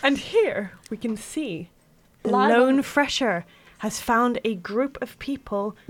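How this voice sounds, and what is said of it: Nature documentary narrator impression. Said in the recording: “a really good David Attenborough impression”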